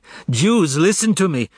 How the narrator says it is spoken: she cried

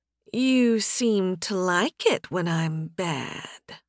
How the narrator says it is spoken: Faye purred

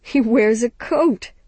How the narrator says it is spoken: Capuchin laughed

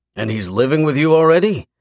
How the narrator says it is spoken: her father blurts

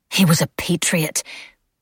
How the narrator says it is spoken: she spat the words

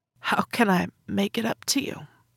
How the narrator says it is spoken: I asked, my voice barely more than a croak, and damn it, my chin started to wobble

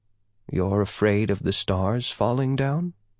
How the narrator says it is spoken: Yeah asked softly

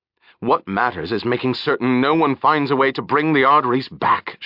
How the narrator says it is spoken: she snapped at him

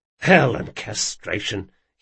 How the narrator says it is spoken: he muttered

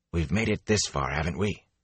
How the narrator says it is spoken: He asked in a hoarse whisper

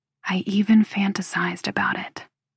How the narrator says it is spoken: I whisper

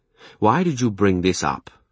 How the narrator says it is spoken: he asked me crossly

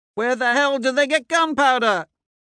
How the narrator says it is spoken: Someone shouts

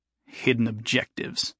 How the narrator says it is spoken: Jason grumbled

